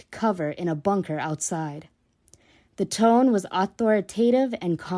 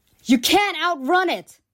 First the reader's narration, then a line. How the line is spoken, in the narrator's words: Upchurch yelled after the newly arrived soldier